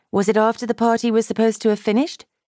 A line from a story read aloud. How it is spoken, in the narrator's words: Kitty asked, in a nonchalant tone